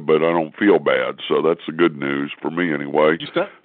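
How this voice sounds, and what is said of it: Hoarse, deep, congested voice. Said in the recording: “I apologize for my voice... caught a pretty bad cold, so I know I don't sound good... You sound like Barry White”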